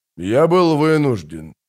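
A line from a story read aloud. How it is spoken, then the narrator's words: Gloomy. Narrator (Russian): мрачно произнес Дуссард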